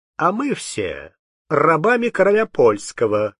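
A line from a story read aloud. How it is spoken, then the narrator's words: Mocking remark. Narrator (Russian): примолвил насмешливо дворянин Образцов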